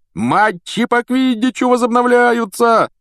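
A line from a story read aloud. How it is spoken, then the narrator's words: Yelling. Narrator (Russian): вопил Вуд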